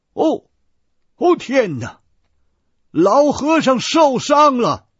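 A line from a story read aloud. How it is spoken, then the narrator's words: Startled cry. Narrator (Chinese): 托马斯神父，见满手都是血迹，他惊叫一声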